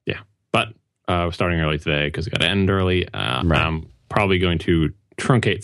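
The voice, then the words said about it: Gravelly voice from a cold. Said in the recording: “you have some kind of cold going ... I'm under the weather today ... you sound like yourself, but just maybe more gravelly ... A little extra foghorn.”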